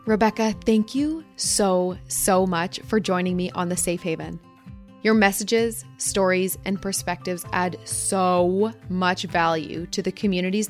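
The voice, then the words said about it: Canadian accent. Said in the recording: “Canadian accent”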